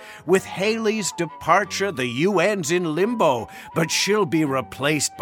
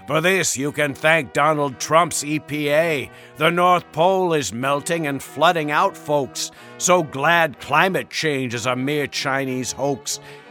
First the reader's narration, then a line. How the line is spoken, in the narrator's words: he grunted